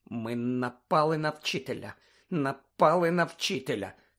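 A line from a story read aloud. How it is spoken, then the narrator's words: Terrified moaning. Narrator (Ukrainian): стогнала Герміона, нажахано дивлячись на нерухомого Снейпа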